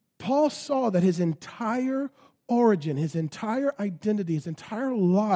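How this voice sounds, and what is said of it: Usual voice. Nothing is said of it.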